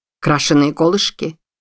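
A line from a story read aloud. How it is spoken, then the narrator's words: Irritated question. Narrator (Russian): раздраженно спросил Джонсон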